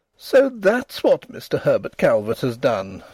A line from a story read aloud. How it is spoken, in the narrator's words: she exclaimed, amid the embers of her mirth